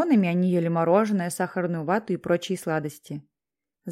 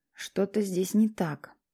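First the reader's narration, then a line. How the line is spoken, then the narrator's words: Whisper under breath. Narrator (Russian): прошептал он себе под нос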